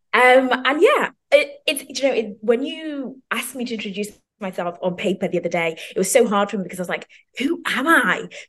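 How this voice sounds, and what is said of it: Zimbabwean and British accent. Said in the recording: “as you can tell probably from my accent, I'm from uh, the UK or from Zimbabwe, then the UK”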